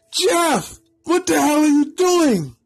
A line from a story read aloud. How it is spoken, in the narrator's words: Ben yelled